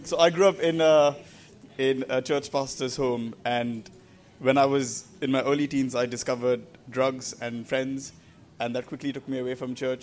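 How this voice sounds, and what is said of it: Indian English accent. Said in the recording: “speaking with an Indian accent ... I grew up in India and moved to England about 10 years ago now, so that's why I speak with my still Indian accent”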